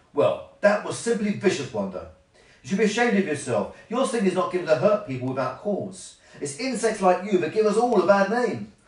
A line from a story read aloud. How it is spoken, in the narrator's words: Beryl said angrily